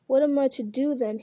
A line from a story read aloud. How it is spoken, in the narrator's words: cried